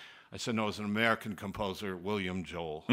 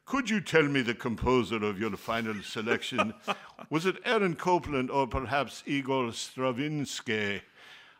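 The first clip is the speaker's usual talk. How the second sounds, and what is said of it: Posh, hoity-toity British accent. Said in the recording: “with a British accent, very hoity-toity”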